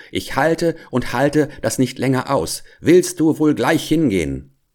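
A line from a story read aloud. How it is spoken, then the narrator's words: Furious screaming. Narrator (German): Da kam sie in Wut, die Haare flogen ihr wild um den Kopf, sie riss sich das Leibchen auf und trat nach ihm mit dem Fuß und schrie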